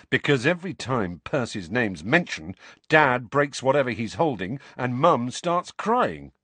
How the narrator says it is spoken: Fred said

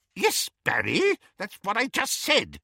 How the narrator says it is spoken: said Auntie Muriel testily

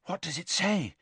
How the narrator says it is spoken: Hermione asked breathlessly

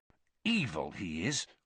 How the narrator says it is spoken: Ron said bitterly

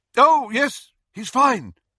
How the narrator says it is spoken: Lupin said loudly

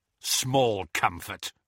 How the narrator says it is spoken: snarled Kingsley

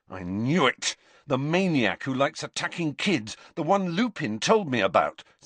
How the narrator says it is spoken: said Harry angrily

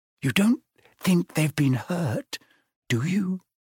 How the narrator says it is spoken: whispered Hermione

